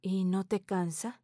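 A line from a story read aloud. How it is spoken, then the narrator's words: Soft question. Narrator (Spanish): Teresa pregunta suavemente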